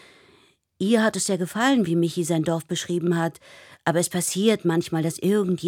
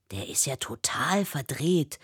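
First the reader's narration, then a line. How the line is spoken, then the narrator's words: Whisper. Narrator (German): flüstert Till hinter ihr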